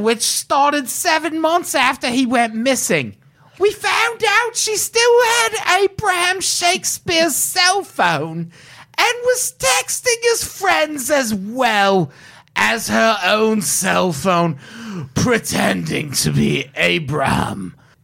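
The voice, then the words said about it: Sheriff Grady Judd accent impression. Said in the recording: “I probably nailed that accent. ... No, you did. ... Uncanny. ... That was real good.”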